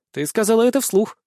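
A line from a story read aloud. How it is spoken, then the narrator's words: Short laugh. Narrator (Russian): хохотнула Рудольф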